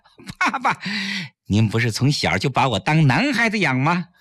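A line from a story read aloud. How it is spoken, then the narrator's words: Smiling. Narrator (Chinese): 崔月笑着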